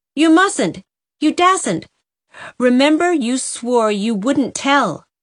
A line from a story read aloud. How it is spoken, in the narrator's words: cried Dovey